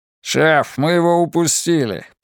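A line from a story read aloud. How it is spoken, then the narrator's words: Grumbling. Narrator (Russian): пробурчал Монтейн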